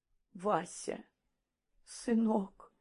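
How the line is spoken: Trembling voice. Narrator (Russian): дрогнувшим голосом заговорила Парамоновна

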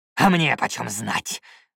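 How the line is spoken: Harsh bark. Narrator (Russian): рявкнул Юхан

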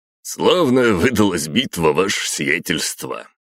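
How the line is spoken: Chuckling. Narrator (Russian): хохотнул полковник Грошев, командир всех наемников ЧВК

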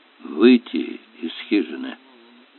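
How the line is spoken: Mutter. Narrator (Russian): пробормотал он

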